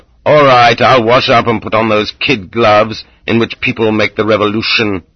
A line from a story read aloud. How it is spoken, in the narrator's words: Losef growled